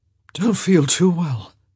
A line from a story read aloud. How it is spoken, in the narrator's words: he slurred